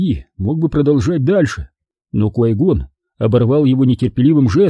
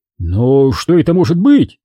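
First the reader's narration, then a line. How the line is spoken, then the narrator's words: Exclamation. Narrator (Russian): воскликнул Диди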